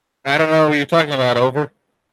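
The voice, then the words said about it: Electronically altered voice. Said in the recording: “Did you just stumble upon a voice changer?”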